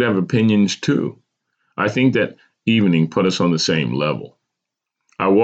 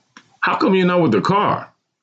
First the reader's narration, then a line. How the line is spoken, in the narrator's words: I snapped